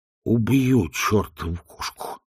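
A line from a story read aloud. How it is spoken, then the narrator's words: Muttering. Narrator (Russian): пробормотал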